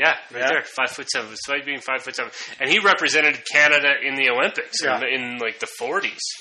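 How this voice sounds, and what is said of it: Usual voice. Nothing is said of it.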